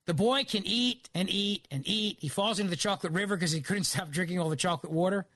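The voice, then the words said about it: Philadelphia accent. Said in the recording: “my Philly accent coming out”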